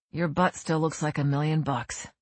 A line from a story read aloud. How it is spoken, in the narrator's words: say somewhat sadly